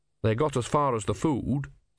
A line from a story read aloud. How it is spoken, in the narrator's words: said Brother